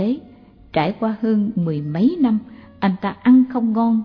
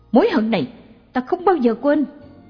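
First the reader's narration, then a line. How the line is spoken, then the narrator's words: Shout. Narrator (Vietnamese): Anh ta hét lên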